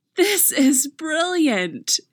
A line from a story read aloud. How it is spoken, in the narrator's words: she shouts